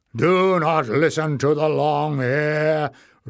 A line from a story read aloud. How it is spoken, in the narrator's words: roared Warren